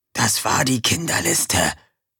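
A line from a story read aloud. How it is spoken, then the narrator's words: Whisper. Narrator (German): flüsterte Erik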